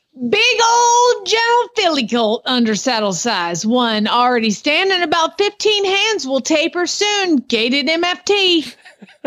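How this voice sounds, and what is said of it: Put-on Southern accent. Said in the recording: “I got to read this in a southern accent.”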